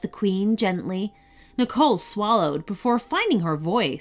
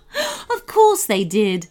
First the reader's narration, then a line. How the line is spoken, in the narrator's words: laughed the queen, although there was little happiness in it